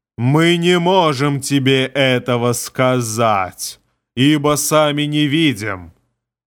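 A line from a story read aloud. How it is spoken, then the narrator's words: Growling. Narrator (Russian): Прорычала тьма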